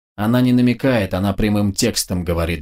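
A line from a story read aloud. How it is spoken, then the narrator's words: Grunted. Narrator (Russian): буркнул Вячеслав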